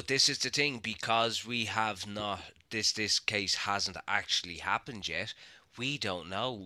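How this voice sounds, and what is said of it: Usual voice. Nothing is said of it.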